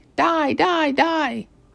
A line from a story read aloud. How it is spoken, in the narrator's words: yelling